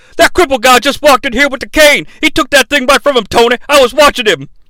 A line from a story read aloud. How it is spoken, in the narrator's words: yells